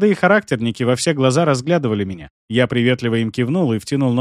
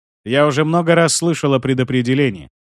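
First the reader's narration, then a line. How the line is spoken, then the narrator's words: Skeptical snort. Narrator (Russian): хмыкнул я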